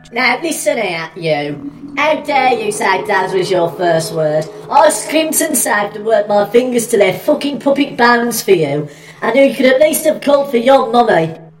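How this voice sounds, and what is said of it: Puppet character with Brummie accent. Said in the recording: “Mummy is a drag queen Banroku puppet from Japan with a helmet of golden hair and a Brummy accent.”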